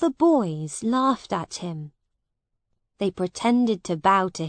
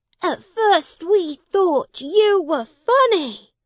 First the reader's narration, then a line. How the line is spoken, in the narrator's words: they shouted